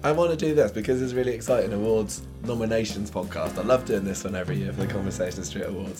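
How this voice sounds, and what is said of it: Hoarse, nearly lost voice. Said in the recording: “my voice is gone ... I'm much better now than I was the other day ... I'm definitely rocking my Phyllis Pierce here ... yesterday I couldn't talk at all”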